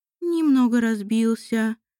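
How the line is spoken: Dejected sigh. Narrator (Russian): вздохнула Марианна, поникнув

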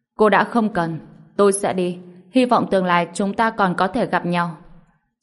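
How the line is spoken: Cold, slightly angry. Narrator (Vietnamese): Tiểu Thủ Phong có chút tức giận, lạnh nhạt nói

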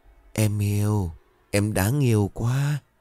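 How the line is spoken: Gentle laugh. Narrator (Vietnamese): Chấn cười hiền hạ

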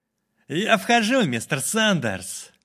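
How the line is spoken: Loud. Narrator (Russian): громко сказал Квинт

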